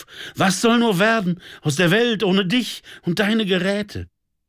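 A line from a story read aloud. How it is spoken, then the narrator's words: Sobbing out. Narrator (German): schluchzte er auf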